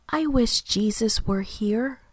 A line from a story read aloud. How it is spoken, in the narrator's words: she said softly